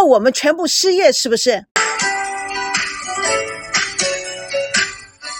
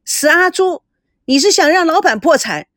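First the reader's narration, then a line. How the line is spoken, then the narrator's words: Loud shout. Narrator (Chinese): 阿烈也大声的叫了起来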